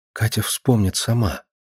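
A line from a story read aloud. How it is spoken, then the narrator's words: Quiet, sad. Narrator (Russian): Грустная тень пробежала по ее лицу, и, не найдя других слов, она тихо сказала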